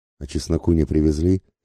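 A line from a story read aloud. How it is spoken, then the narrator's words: Timid question. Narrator (Russian): робко спросил Ленюшка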